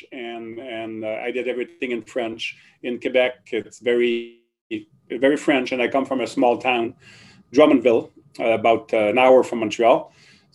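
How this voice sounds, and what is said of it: French Canadian accent. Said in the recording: “you probably noticed the French accent. So I was born in Quebec ... that never got rid of my French accent”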